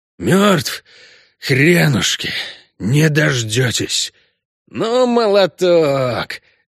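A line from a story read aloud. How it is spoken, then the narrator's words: Angry hoarse after coughing. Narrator (Russian): Откашлявшись, Геральт зло прохрипел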